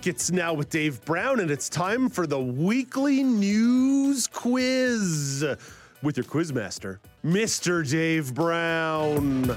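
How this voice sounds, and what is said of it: Exaggerated sports announcer voice. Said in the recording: “Putting on my Harry Carey announcer voice while I'm hosting the quiz”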